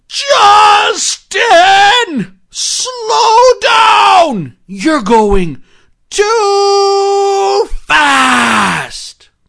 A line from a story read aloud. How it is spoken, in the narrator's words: take a deep, deep breath and yell out as loud as they could